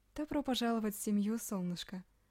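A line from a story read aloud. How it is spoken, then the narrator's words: Affectionate. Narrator (Russian): ласково сказала она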